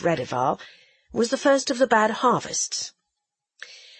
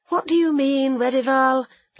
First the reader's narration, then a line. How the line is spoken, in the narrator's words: asked I wearily, for I knew she meant some new spite